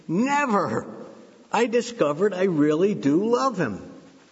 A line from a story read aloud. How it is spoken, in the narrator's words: exclaimed